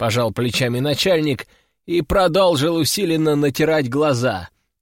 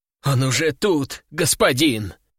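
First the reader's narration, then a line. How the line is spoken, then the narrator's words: Frightened bleating. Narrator (Russian): Еще более испуганно проблеял секретарь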